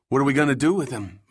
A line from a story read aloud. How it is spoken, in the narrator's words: Mark asked